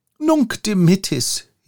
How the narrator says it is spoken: he cried at last

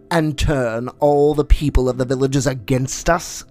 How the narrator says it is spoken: snarled Shere Khan

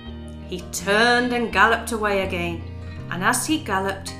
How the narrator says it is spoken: he growled to himself and gnashed his teeth

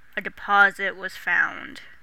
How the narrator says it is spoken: he snarled

